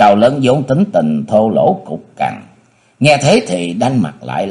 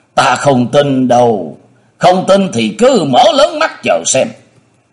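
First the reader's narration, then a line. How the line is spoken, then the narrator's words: Big man shouting. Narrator (Vietnamese): Gã cao lớn quát miệng la lên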